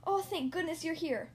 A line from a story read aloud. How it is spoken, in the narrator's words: cried